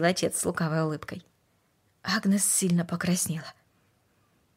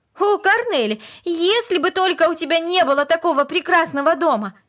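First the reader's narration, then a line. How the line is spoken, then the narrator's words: Passionate exclamation. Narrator (Russian): страстно воскликнула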